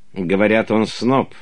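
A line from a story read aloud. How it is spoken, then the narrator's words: Agitated, hostile, demanding question. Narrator (Russian): спросил граф де Брёте, взвинченно недоброжелательным и требовательным тоном, как если бы он ожидал точного ответа на вопрос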